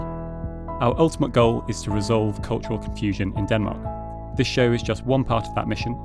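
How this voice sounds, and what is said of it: British English accent. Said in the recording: “as you can probably tell from my accent, I'm originally from the UK”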